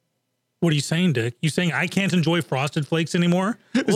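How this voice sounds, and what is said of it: Usual voice. Nothing is said of it.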